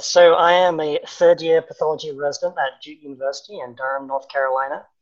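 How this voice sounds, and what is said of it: English accent. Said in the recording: “I grew up in England, as you can maybe guess from my accent.”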